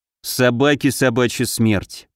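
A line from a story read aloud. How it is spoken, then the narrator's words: Grumbling. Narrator (Russian): проворчал Алёша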